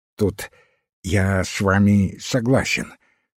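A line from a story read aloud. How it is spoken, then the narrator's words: Childish lisp. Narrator (Russian): как-то по-детски шепеляво произнес профессор химии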